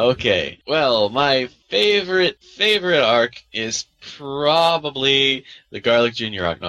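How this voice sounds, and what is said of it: Usual voice. Nothing is said of it.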